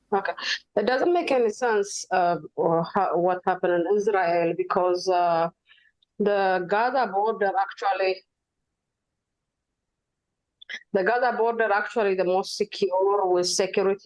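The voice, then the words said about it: Heavy accent. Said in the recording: “her accent was heavy, sounded like she was reporting live from the border of Gaza”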